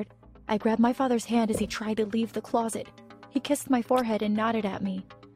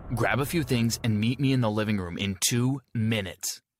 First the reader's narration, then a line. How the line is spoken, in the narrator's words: my father said sternly